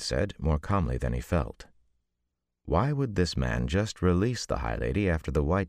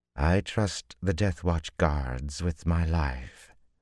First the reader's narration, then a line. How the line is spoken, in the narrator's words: the High Lady replied calmly